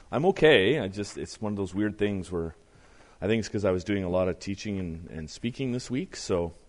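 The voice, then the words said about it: Deeper, strained overused voice. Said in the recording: “my voice is a little more baritone this morning than usual... my voice has probably been pushed to its limit a little bit”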